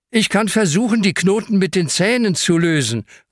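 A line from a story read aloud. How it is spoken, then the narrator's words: Called out. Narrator (German): ruft Hanna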